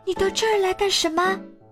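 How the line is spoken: Shouting. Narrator (Chinese): 巴豆叫道

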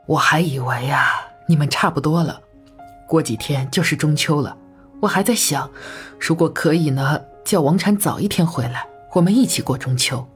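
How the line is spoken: Worried sigh. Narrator (Chinese): 陈妈妈更增加了忧虑，叹息道

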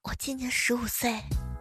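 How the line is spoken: Muttering. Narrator (Chinese): 后排有个学生嘀咕着说

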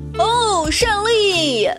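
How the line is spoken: Gleeful triumphant shout. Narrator (Chinese): 我一时得意忘形，高兴地大喊道

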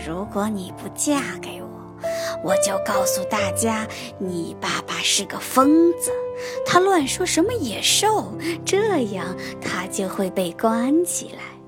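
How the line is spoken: Low threatening voice. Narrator (Chinese): 加斯顿低声威胁贝尔

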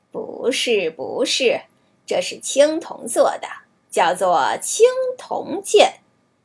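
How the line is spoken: Laughing swordsman. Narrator (Chinese): 剑客笑着说

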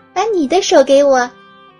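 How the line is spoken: Smiling. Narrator (Chinese): 对妈妈笑了笑

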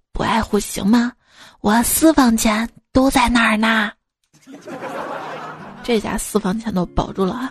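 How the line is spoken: Quiet. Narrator (Chinese): 我哥小声的说

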